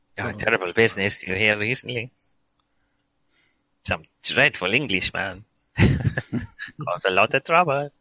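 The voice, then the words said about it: Put-on accent. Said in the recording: “I've got to stop using this accent.”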